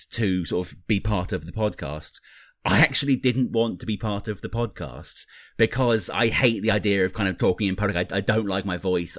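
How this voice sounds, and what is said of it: British accent. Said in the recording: “Americans love the British accent. And I'm the Brit here.”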